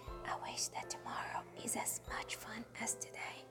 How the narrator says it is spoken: he whispered

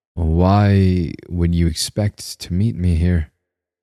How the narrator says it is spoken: I asked

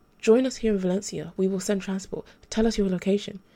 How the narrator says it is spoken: Valerie said

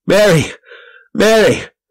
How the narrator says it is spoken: I cried

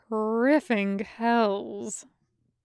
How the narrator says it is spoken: the captain grumbled

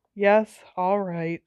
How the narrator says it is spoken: said Hermione wearily

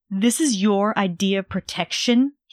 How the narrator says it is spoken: he spat through bared teeth

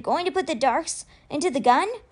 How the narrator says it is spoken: Ty panted

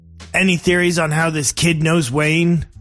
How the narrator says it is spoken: barked to the room of detectives

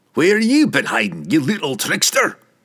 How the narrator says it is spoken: Bruner roar, and the dwarf's sheer volume

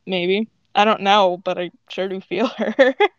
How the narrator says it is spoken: she laughs and then gets serious and says

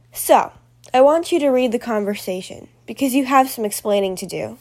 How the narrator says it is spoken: said Mrs

